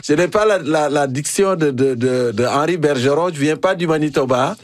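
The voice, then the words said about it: African accent in French. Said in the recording (French): “mon accent africain ... C'est encore plus savoureux avec ton accent africain”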